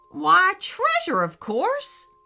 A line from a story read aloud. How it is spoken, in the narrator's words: laughed the jackalope